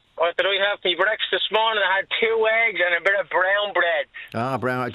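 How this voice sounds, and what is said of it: Strong Dublin accent. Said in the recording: “I love my Dublin accent. It's very strong”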